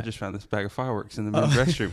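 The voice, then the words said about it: Texas-accented character voice. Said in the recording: “can you get into your Texas accent? ... It's just Rico from. ... From Napoleon Dynamite?”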